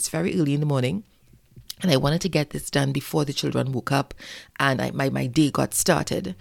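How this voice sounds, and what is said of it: Tired, weary voice. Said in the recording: “I have been exceedingly exhausted. You could probably hear it in my voice.”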